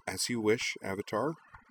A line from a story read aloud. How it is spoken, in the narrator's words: said hesitantly